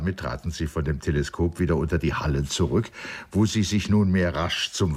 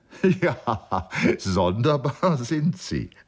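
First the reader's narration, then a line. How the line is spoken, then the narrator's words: Laughing. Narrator (German): lachte Gordon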